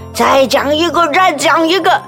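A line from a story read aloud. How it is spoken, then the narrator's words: Father speaking loudly. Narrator (Chinese): 爸爸大声的说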